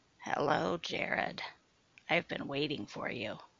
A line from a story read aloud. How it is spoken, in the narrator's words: said Sue, her voice now coarse like sandpaper